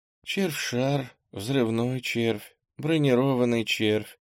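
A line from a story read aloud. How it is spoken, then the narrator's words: Weak voice. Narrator (Russian): перечислила Ира слабым голосом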